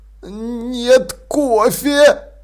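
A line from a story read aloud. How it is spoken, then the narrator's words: Groaning. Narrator (Russian): простонал Маладикт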